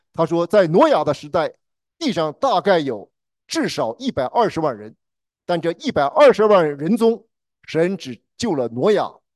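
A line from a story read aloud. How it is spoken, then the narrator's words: Preaching. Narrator (Chinese): 在讲道中说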